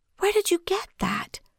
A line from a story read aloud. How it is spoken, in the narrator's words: she asked again in a whisper